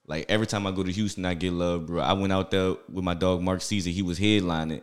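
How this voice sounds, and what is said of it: New Orleans accent. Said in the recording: “I'm from New Orleans, so like they gotta adapt to, I guess, my accent, ... like my pace.”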